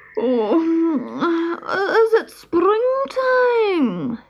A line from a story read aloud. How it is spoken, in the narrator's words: asked sleepily